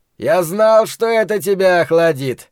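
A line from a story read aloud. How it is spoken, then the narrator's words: Cheerful shout. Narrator (Russian): весело закричал человек, известный ему под именем Ричарда Фрая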